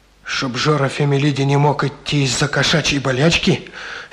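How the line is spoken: Angry. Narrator (Russian): сердито сказал Жора

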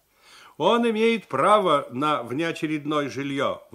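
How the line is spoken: Authoritative persuading. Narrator (Russian): внушал кому-то Алексашин авторитетным голосом

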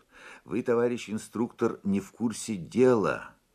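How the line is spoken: Soft, annoyed remark. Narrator (Russian): мягко и досадливо заметила Лена

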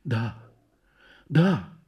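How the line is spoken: Absent whisper. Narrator (Russian): шепнула она о чем-то своем

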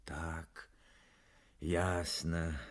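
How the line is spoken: Sighing. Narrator (Russian): вздохнул Кананыкин

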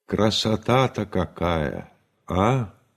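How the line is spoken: Thoughtful speech. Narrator (Russian): Стрельцов задумчиво сказал

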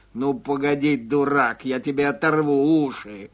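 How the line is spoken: Pike's hoarse wheeze. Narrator (Russian): Казалось, щука прохрипела

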